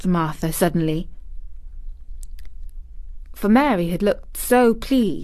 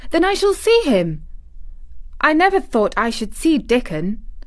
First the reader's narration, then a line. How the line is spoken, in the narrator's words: exclaimed Mary